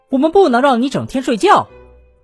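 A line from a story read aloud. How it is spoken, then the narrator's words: Hurried. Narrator (Chinese): 催促先生急忙说道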